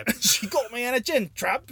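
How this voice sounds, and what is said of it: Weird put-on accent. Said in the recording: “That was a weird accent we did, huh?”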